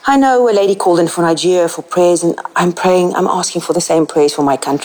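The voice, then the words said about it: South African accent. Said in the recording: “you can probably hear from my accent, I'm South African”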